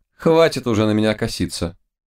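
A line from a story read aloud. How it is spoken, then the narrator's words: Mocking. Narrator (Russian): Киска насмешливо сказала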